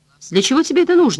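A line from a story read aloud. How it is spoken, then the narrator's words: Exclaimed. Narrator (Russian): воскликнула Хелен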